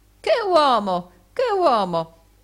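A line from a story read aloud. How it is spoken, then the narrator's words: Calm exclamation, no anger. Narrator (Italian): non mostrò alcun indizio di collera e si contentò di esclamare come prima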